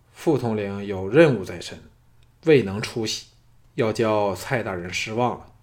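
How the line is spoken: Flat, cool. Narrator (Chinese): 淡淡的说

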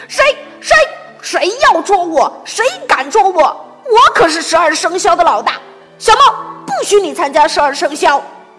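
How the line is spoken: Angry shouting. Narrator (Chinese): 它气呼呼地吼道

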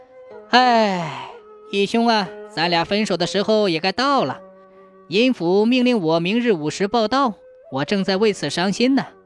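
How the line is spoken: Sorrowful long sigh. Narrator (Chinese): 水鬼长叹一声说

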